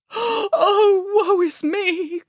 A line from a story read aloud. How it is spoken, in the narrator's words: cried the mother pig